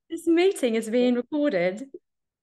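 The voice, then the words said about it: Put-on British accent. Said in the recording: “Here's your British accent ... you've already gone into accents”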